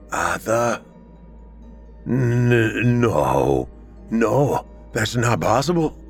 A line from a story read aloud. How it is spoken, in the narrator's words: he stammered